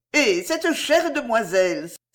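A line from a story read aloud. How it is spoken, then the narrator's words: Exclaimed. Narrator (French): s'écria-t-elle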